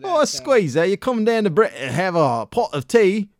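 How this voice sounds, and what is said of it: Mock British accent. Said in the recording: “when we do a British accent, yeah, we just are acting like assholes”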